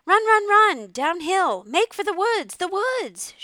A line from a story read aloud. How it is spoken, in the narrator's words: she shouted to Wilbur